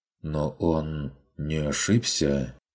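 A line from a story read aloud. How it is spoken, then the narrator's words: Timid remark. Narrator (Russian): робко заметил Альфред Велли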